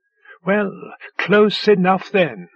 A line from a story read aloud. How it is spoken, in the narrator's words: Hare said, laughing gently